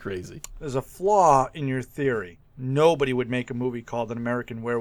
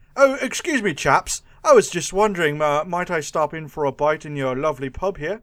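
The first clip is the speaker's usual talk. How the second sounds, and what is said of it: Posh English accent. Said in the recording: “An English Werewolf in America ... shot him for the accent ... Look at this fancy talker over here ... with his fancy Oxford degree”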